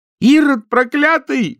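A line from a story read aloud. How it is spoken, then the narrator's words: Shout. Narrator (Russian): закричала она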